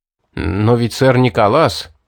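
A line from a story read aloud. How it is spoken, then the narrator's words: Mumbled. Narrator (Russian): промямлил Патрик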